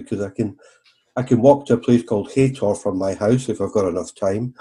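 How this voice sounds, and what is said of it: Devon English accent. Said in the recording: “you can tell from my accent I'm a local ... you've obviously born and bred in Devon”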